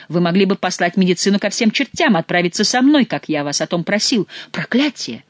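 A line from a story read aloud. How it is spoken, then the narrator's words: Exclamation. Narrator (Russian): воскликнул Бюсси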